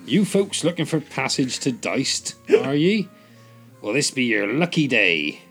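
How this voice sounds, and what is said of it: West Country pirate accent. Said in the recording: “What is a pirate accent? It's in West Country. Yarr.”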